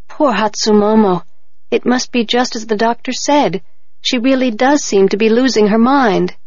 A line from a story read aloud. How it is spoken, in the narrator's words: said sadly